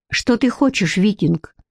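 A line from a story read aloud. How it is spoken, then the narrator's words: Sharp, hiding embarrassment. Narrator (Russian): резко спросила Бренна, пытаясь скрыть смущение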